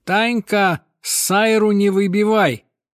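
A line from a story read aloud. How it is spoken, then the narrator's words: Shouting across shop. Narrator (Russian): Иногда продавщица кричала кассирше через весь магазин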